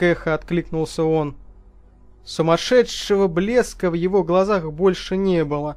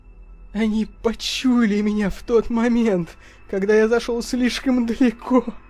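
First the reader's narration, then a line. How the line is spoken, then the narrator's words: Moaning. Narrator (Russian): простонал Чалмерс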